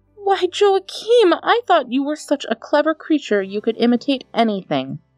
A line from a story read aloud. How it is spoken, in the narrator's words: cried his mother